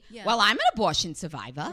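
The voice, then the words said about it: Imitates another person's voice. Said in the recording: “doing an impression of ... Oh, that's kind of spot on.”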